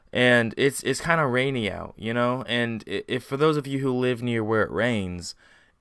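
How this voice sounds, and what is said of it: Unwarmed early-morning voice. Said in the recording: “If you couldn't tell by my voice, it's like the first time I've talked for the day”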